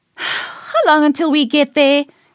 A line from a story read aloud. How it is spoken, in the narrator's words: She sighed